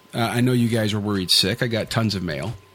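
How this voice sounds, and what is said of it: Sarcastic delivery. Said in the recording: “That was sarcastic,”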